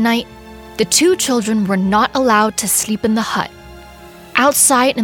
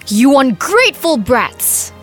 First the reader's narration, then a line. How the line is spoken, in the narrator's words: yelled